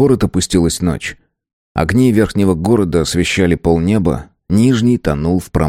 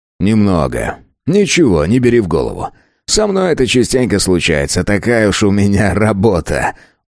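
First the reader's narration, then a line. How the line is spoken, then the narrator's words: Chuckling. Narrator (Russian): Он хохотнул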